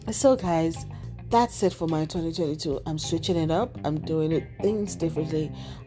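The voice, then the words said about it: Husky voice. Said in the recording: “it's a bit colder, so my voice is a bit husky”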